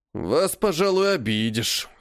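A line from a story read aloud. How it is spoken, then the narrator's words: Snorting. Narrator (Russian): хмыкнул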